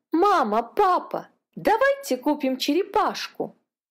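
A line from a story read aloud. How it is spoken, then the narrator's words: Exclaiming. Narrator (Russian): воскликнула Катя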